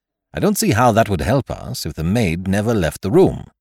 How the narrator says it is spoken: said impatiently

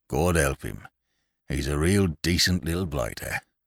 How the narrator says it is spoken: a blue-nosed, ragged veteran of Vimy Ridge muttered

